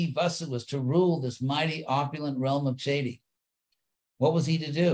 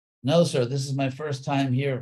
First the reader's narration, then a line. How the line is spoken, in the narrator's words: Vasu said